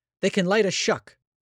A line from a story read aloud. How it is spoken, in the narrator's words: Tishy cried, reverting to some slang she remembered from her very misspent youth